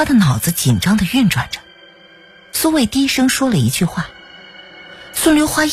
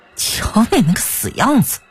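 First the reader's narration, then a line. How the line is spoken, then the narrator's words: Sneering. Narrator (Chinese): 苏卫冷笑一声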